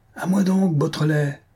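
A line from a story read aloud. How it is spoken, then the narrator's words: Old man's furious cry. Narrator (French): s'écria le vieux policier, qui grinçait de rage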